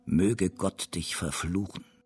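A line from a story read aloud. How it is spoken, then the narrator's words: Hoarse voice. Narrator (German): sprach mit heiserer Stimme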